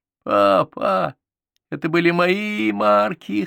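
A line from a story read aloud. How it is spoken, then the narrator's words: Whimpering boy. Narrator (Russian): хныкал мальчик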